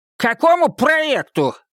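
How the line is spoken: Fat man shouting. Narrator (Russian): выкрикнул толстяк

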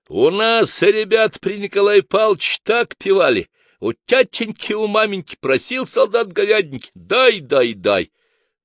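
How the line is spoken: Insistent old man. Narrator (Russian): старик не унимался

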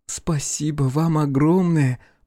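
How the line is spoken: Cooing. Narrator (Russian): проворковала она

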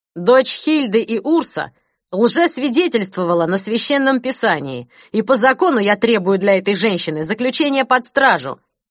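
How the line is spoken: Firm voice. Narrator (Russian): твердым голосом повторил барон фон Берн

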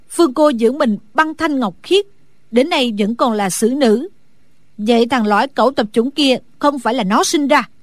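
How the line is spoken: Shrill shout. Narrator (Vietnamese): Mai Văn Hinh lanh lảnh hét lên

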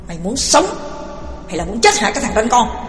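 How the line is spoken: Harsh stern voice. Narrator (Vietnamese): Loan gằn giọng

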